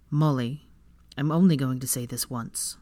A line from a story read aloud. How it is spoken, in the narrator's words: Draco said in a hard tone, ice laced with steel